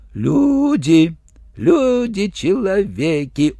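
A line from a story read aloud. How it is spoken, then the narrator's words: Respectful simpleton's drawl. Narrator (Russian): уважительно протянул слабоумный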